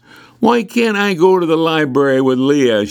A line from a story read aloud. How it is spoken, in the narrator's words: asked